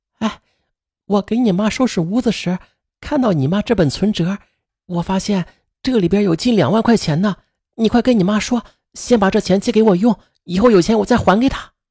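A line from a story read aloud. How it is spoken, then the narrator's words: Whisper. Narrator (Chinese): 姚小丹悄声的对白帅说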